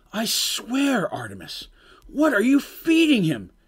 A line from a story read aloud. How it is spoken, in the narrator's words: cried in despair